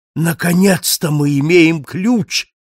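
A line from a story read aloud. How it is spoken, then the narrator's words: Exclaimed. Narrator (Russian): воскликнул он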